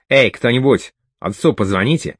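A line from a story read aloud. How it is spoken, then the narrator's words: Commanding tone. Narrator (Russian): приказным тоном распорядился он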